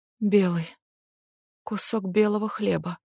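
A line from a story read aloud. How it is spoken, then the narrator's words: Choked-up mumble. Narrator (Russian): наконец, проглотив комок, промямлила Эмми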